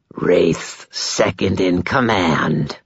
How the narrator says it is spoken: the vampire rasped

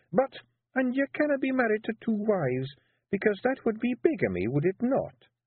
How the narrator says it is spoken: said Jeanie, her voice dangerously sweet

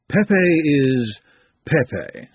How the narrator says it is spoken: said Madame calmly

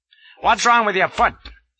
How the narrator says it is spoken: snaps he

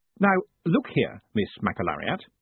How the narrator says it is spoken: said firmly

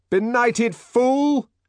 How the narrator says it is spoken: shouted the man from the Fordian Science Monitor

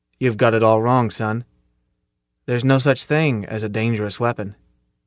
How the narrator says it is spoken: Zim said almost gently

